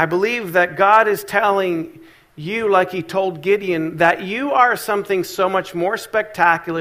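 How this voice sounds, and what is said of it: Usual voice. Nothing is said of it.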